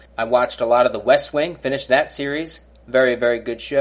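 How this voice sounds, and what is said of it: Usual voice. Nothing is said of it.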